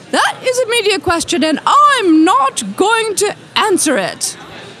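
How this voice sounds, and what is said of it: Imitates another person's voice. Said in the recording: “you do a very good impression of Julia Child”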